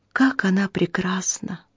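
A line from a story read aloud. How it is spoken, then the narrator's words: Sighing. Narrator (Russian): вздохнула Дороти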